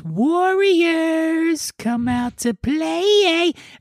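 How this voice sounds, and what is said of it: Weird creepy character voice. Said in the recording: “weird voice”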